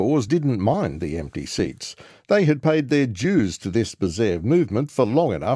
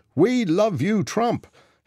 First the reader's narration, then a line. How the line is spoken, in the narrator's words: He shouted it over and over again